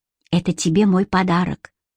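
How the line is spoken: Whisper. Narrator (Russian): шептал Карлайл Джемми

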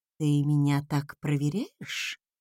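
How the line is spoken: Gentle question. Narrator (Russian): Мягко уточнил он

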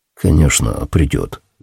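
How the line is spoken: Muttered. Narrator (Russian): пробормотал

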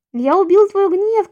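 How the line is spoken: Shouting in shocked delight. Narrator (Russian): кричал в восторге и потрясении

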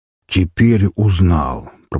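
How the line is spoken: Deep bass voice. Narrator (Russian): пробасил хозяин особняка

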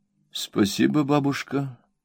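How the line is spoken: Quiet. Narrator (Russian): тихо сказала Дора

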